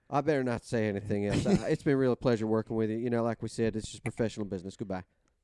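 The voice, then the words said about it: Good Jim Crane impression. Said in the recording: “That was pretty good. That was a good Jim Crane impression.”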